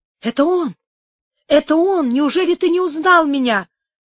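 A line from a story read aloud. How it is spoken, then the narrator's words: Highly agitated exclamation. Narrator (Russian): воскликнула она в страшном волнении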